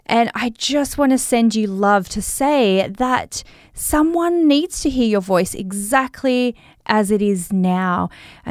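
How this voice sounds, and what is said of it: Australian accent. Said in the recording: “my Australian accent”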